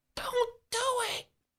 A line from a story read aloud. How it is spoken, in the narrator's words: the boy whispers from his hiding place